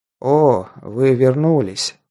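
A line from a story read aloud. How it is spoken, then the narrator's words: Tired gladness. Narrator (Russian): устало обрадовался он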